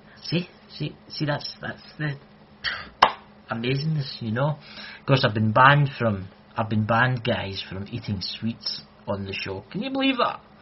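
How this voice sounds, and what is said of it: Scottish accent. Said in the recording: “my Scottish accent, some people can't understand it ... I've got the best accent”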